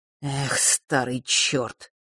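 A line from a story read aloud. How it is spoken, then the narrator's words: Annoyed mutter. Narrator (Russian): раздосадованно пробормотал Миракл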